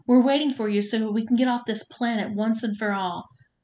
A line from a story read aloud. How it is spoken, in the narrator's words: Trisha yelled at me